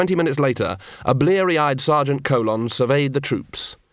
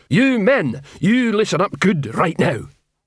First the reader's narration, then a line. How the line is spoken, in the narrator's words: Detritus boomed